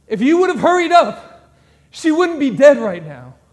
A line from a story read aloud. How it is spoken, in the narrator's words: scream at Jesus